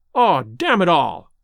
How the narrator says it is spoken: I cried

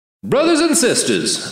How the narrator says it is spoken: the martyr's voice boomed

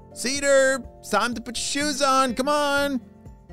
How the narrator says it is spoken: shouted his mom

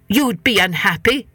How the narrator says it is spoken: said the head man crossly

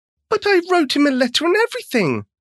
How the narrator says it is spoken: wailed Sally

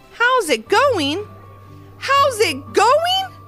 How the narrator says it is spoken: exclaimed Levi

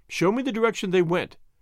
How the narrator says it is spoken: cried the woman

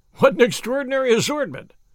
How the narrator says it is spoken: I exclaimed

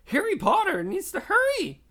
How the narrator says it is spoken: squeaked Dobby

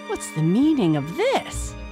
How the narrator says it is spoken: exclaimed the soldier

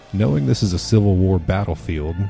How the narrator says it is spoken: Bruleid says

